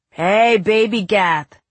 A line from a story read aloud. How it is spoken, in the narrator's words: one jug-jawed boy called out